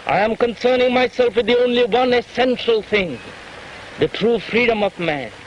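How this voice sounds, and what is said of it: Clipped old-fashioned Indian English accent. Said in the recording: “Krishnamurti's accent ... That clipped, old-fashioned accent ... older Indian men ... who'd been taught English by British teachers in the last days of the Raj”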